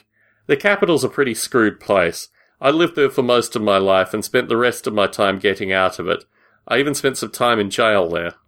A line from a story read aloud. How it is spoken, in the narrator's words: laughed